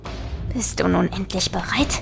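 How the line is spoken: Corpse hissing. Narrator (German): zischte der Leichnam

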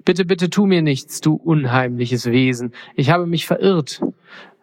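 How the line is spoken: Frightened stutter. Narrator (German): stotterte Mondküken verängstigt

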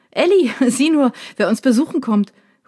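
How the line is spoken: Calling toward kitchen. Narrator (German): ruft Dad Richtung Küche

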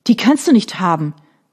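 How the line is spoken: Dismayed cry. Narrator (German): rief sie, und ihr Herz sank

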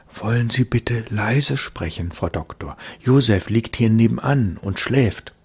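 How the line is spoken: Anxious whisper. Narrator (German): flüsterte sie ängstlich

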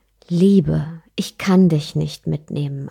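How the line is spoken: Plain. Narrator (German): antwortete der Stolz

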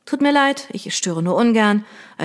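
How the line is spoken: Flat toneless voice. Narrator (German): erklärte sie tonlos

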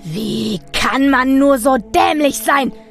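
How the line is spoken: Screaming at full voice. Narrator (German): schrie er aus voller Kehle

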